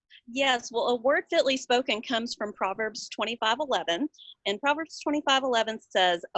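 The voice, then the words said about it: Southern US accent. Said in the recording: “the one with the accent way down south”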